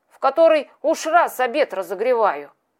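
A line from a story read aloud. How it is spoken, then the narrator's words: Displeased grumbling voice. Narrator (Russian): Все тем же недовольным голосом говорил маленький волосатый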